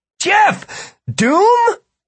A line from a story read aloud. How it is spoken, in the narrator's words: Martin laughed, then yelled